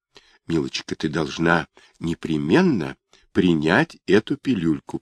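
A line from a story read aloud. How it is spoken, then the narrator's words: Whisper. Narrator (Russian): прошептала она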